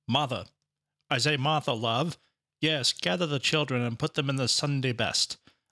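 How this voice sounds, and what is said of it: Put-on old-timey Iowa accent. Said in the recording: “Do you think that accent is accurate for 1912 Iowa?”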